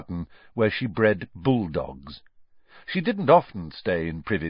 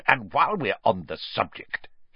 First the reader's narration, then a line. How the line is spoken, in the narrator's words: Uncle Vernon snarled